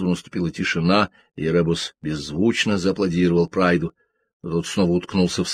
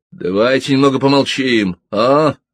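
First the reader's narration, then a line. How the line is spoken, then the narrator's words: Barking shout. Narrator (Russian): рявкнул Билл Прайд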